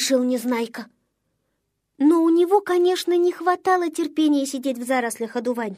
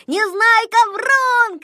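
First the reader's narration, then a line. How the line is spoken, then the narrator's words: Group shouting. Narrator (Russian): кричали они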